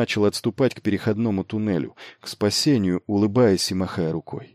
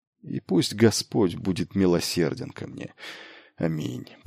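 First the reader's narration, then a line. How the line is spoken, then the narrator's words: Muttered under breath. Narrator (Russian): пробормотал он себе под нос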